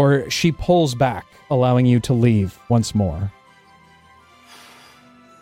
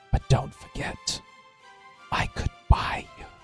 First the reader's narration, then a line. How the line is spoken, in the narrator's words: she leans into your ear and whispers